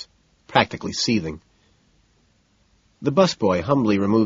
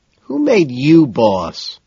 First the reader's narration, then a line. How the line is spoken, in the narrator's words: McDermott whines